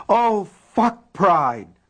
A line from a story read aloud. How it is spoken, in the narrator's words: Polly shrieked suddenly